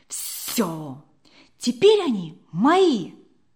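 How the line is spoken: Joyful thought. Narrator (Russian): радостно подумала она

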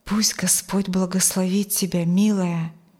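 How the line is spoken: Whisper. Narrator (Russian): прошептал

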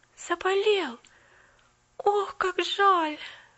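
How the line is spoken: Groaning. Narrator (Russian): простонала Поллианна

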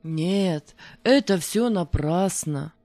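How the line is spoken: Dejected speech. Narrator (Russian): проговорил он уныло

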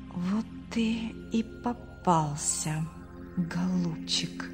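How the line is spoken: Whisper. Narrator (Russian): прошептал Артур

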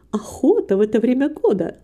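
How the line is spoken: Plain. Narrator (Russian): сказала миссис Басби

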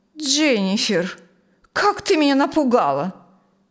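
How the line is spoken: Exclaiming. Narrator (Russian): воскликнула она

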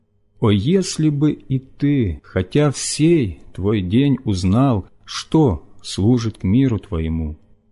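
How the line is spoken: Loud tearful cry. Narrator (Russian): сын этот стоит, горько плача и громко взывая

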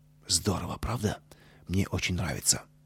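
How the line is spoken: Whispered. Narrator (Russian): Костя шепнул Пете

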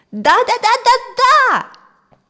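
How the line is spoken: Joyful yell. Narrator (Russian): радостно завопил Бен

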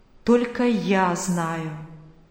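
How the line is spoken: Plain, the Lord. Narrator (Russian): говорит Господь

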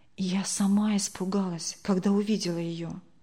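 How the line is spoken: Whispered. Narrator (Russian): прошептала Тамара Сергеевна

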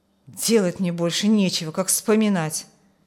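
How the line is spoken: Grumbling. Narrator (Russian): буркнул Петр

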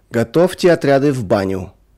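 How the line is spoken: Sudden shout. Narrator (Russian): вдруг крикнул кому-то конвоир

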